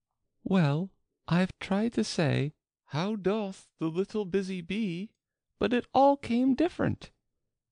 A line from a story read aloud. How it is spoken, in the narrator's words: Alice replied in a very melancholy voice